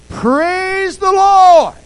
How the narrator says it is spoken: shouted

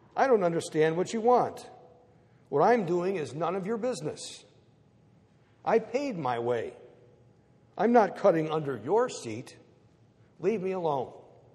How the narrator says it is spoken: Calmly, the man answers

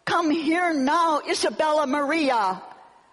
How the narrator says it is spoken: Filled with overwhelming fear, she called out

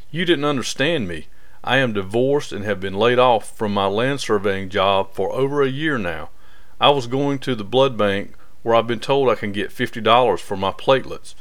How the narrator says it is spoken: Laughing slightly, he replied

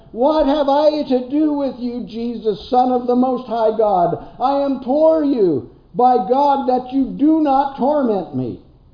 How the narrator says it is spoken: he cried out with a loud voice and said

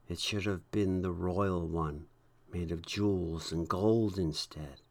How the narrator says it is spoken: many of the saints said quietly

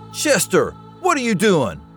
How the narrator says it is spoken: I yelled

